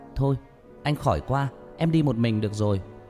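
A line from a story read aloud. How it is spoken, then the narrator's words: Shout. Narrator (Vietnamese): Hét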